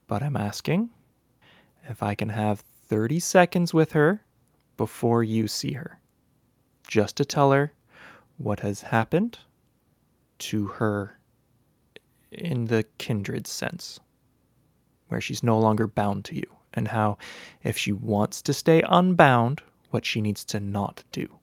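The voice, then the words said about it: Calm therapist-like voice. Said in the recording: “in that therapist voice ... my therapy bowl voice”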